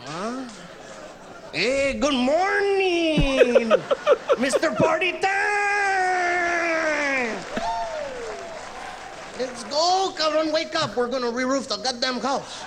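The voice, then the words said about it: Dad voice with Mexican accent. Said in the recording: “him doing his dad's voice... That's Mexican accent”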